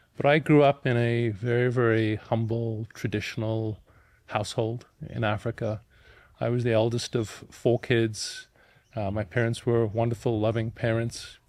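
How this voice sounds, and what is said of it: Mixed South African-European accent. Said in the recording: “You got a really funny accent ... grown up in South Africa to an Austrian father and a mother of English descent ... my accent reflects the journey I've been on. It's global.”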